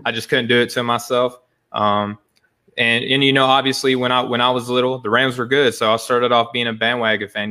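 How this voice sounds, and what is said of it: Arkansas accent. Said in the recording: “I'm sure my accent gives it away. I'm from Arkansas originally”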